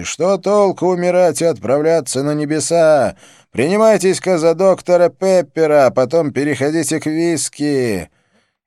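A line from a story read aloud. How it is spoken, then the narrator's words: Shouted while singing. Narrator (Russian): Он поет и еще успевает крикнуть публике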